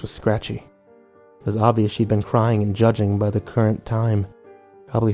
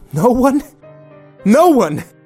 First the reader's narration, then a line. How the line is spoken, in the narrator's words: she yelled